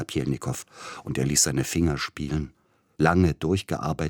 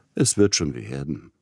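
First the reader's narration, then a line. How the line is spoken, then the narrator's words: Gentle, from bed. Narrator (German): redete Peter Iljitsch sanft aus dem Bett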